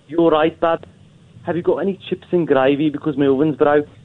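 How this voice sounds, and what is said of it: Bad imitation Birmingham accent. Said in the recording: “he was trying Birmingham ... that was awful ... such a bad impression”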